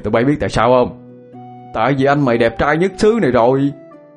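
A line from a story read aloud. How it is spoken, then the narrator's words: Proud, loud laughing. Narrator (Vietnamese): Hai Bình được nước tự hào, cao giọng cười to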